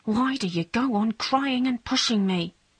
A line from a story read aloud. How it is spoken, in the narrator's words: he whispered